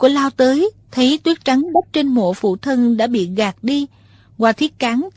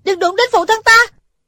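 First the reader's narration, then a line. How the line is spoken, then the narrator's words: Shouting. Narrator (Vietnamese): Thủy Sinh hét lên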